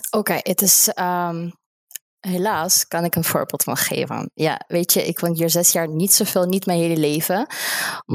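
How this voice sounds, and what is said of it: Slight non-native accent in Dutch. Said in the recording (Dutch): “dat accentje die je hebt, vind ik onwijs leuk”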